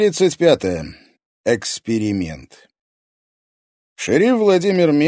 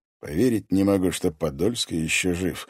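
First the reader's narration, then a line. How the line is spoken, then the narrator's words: Low voice. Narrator (Russian): вполголоса произнес Мезенцев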